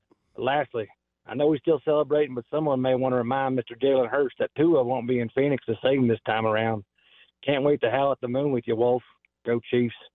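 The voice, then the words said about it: Thick regional accent. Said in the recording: “that's a thick accent”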